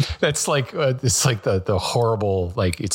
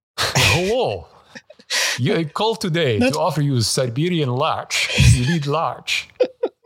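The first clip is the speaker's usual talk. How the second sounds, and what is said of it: Put-on Russian accent. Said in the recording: “You're pretty good at that ... accent ... it's probably horrible ... It sounds convincing to me ... it's like the Borat of Russian”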